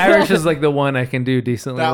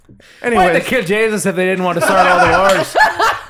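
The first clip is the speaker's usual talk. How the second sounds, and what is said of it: Convincing put-on Irish accent. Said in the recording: “You are no longer bad at accents... You got just Irish enough accent... nail Irish”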